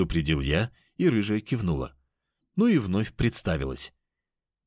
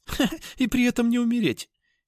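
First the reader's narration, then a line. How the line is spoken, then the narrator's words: Giggling cat. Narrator (Russian): хихикнула кошка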